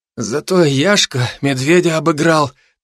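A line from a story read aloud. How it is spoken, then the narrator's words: Half groan, half smirk. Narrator (Russian): То ли простонал, то ли усмехнулся Саблин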